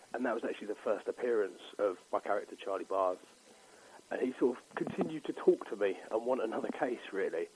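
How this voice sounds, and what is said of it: Southeast London accent. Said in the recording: “it's set in southeast London, and judging by your accent, that could be well where you're from.”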